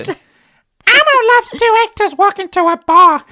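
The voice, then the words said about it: Imitates the Elmo puppet voice. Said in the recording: “I can do an impression of Elmo ... It's very good.”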